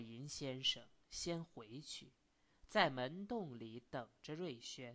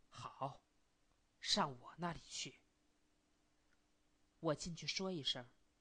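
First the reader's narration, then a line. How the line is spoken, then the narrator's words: Low reply. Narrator (Chinese): 瑞轩低声的答对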